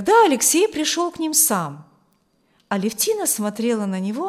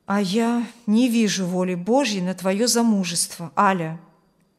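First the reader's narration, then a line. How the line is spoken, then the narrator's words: Sad, father. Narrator (Russian): грустно говорил отец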